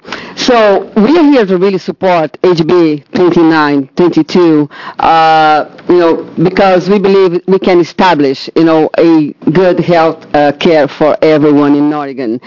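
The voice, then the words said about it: Speaks English with a noticeable accent. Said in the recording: “I'm sorry about my accent.”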